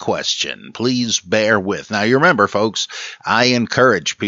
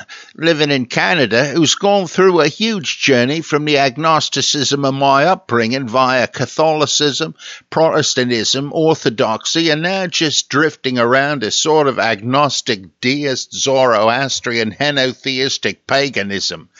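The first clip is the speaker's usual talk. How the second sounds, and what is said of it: Put-on low-class English accent. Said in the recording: “Can you put your best foot forward for a Geordie and or Manchester accent, or would it just sound Cockney? I have no idea, so I'm just going with my low-class English accent.”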